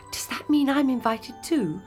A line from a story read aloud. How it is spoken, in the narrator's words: asked Cinderella excitedly